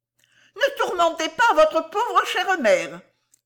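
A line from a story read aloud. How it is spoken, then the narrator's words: Shouted. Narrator (French): cria Mistress Cluppins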